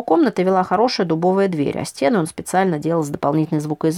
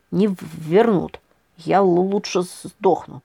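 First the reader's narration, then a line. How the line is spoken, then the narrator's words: Wolf, through gritted teeth. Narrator (Russian): процедил волк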